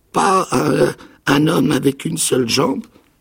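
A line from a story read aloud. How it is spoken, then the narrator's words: Stammered. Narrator (French): bégaya-t-il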